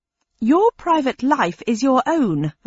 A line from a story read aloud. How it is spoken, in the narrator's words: replied angrily